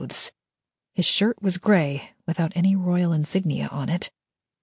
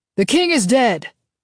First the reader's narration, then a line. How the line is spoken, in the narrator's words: someone yelled from the back door